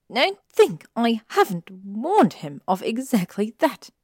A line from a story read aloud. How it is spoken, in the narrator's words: she snapped